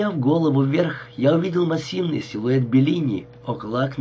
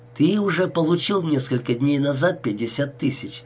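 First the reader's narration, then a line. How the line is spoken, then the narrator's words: Plain. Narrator (Russian): ответила Лаура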